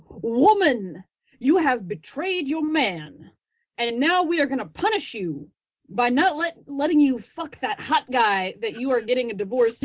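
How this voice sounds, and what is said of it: Put-on old Southern gentleman accent. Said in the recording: “you went Colonel Sanders for your accent there”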